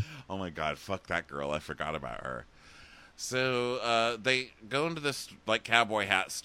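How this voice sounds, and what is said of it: Usual voice. Nothing is said of it.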